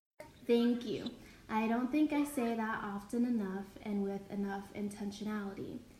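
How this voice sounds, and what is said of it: Childlike baby voice. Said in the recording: “excuse my baby voice. That happens when I'm nervous and when I'm talking to someone that I love. I revert to being a child”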